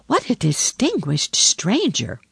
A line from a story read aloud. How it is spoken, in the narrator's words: the sparrows chirped and said to each other